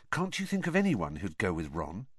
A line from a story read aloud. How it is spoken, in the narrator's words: he said, lowering his voice so that Ron wouldn't hear